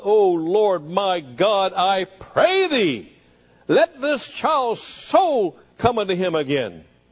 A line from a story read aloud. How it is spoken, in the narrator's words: Cried out loud